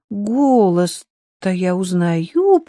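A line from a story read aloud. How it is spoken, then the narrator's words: Drawling. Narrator (Russian): протянула она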